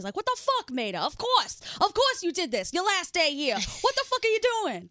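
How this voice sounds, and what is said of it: Thick Boston accent. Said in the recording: “he has like this really thick Boston accent”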